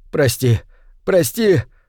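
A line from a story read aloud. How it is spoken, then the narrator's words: Sobbing. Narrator (Russian): рыдал он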